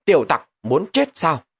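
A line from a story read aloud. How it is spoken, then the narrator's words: Sudden shout. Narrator (Vietnamese): Lục Tiêu Du, chợt vang lên tiếng quát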